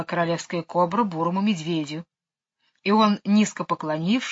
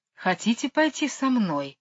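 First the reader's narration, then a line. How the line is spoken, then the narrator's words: Gentle question, cobra. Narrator (Russian): ласково спросила кобра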